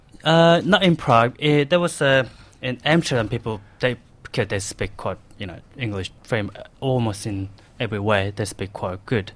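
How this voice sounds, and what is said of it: Australian accent with Korean undertone. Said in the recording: “I speak like so much Australian accent I got, kind of ... people they pick my Australian accent from my Korean accent plus”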